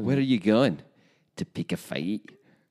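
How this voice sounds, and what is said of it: Pretty good put-on Scottish accent. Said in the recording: “you do a pretty good Scottish accent”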